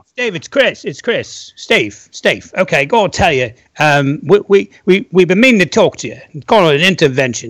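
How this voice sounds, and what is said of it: Imitated voice with English accent. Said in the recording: “Chris Squire impression ... Any old English accent will do. It's fine. It was more the content than the accent.”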